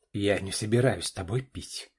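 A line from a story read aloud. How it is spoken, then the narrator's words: Angry. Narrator (Russian): зло произнес Саша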